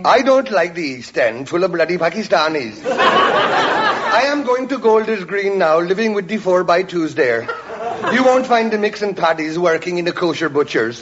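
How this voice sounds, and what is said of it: Caribbean accent. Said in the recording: “spake in accent Caribbean”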